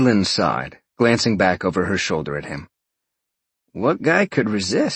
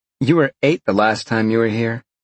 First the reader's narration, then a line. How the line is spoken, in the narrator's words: Jolene laughed